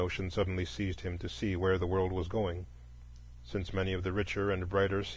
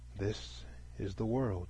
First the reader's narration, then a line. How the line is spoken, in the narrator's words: with a sigh, he said